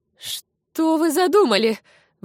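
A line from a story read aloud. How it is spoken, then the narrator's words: Exclaiming. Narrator (Russian): воскликнула Амалия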